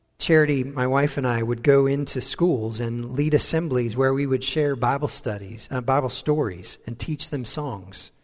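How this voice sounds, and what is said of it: American accent. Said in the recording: “our American accent caught their attention”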